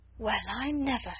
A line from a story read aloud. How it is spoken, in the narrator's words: she exclaimed